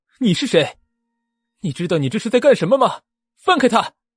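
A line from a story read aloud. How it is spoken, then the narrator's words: Loud, worried. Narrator (Chinese): 思慕非常担忧的，大声对明蕊说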